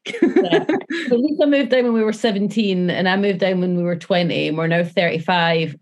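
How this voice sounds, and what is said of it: Scottish accent, Edinburgh hybrid. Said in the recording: “our accents have just amalgamated into, originally from Edinburgh, but they've just amalgamated into, a hybrid”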